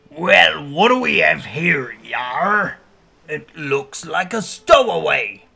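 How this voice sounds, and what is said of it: Deep pirate character voice. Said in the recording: “a deep voice”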